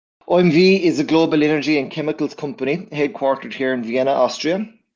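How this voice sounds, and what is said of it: Irish accent. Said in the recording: “I'm originally from Ireland... we can already hear your accent”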